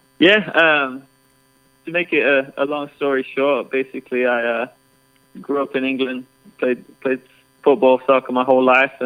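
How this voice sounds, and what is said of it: English accent. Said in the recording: “you have an accent. Your life and career started in England”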